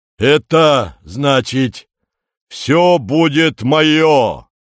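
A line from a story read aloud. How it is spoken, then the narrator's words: Rumbling announcement. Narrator (Russian): ракочущим голосом объявляет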